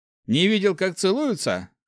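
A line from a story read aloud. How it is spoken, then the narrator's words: Snorting. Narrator (Russian): хмыкнул Гош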